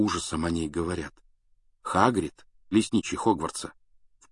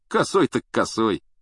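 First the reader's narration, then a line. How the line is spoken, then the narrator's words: Snorting, wry. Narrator (Russian): хмыкнул Стэн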